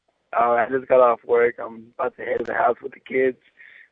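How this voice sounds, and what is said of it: Hoarse, strained voice. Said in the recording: “I lost my voice in the past couple of days”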